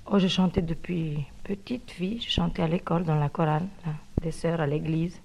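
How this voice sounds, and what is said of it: Foreign accent speaking French. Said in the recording (French): “une petite particularité dans sa voix ... cet accent”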